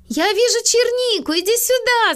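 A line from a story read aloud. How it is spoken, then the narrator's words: Shouting. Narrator (Russian): закричала Милли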